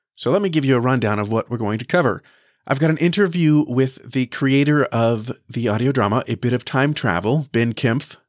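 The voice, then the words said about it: Voice slightly off. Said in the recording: “I got COVID ... I am still recovering, and my voice is a little bit off”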